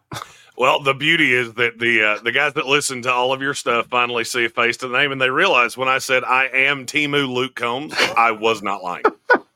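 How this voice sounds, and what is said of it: Carolinas Southern accent. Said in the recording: “you hear this guy talk in a second, and you'll be like, yep, that guy's from the Carolinas ... the beard, the accent”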